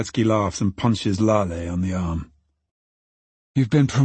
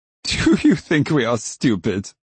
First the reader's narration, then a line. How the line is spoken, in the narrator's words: Baretsky laughs